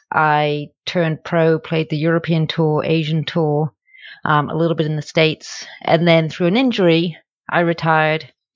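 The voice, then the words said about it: British accent. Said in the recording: “As you can tell from my accent, that's not where I'm originally from. I'm originally from the UK”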